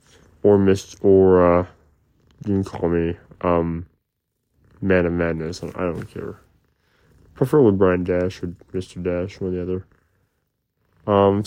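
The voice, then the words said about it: Strained, out-of-whack voice. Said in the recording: “my throat is screwed ... My voice is changing, not permanently, but because my voice is out of whack”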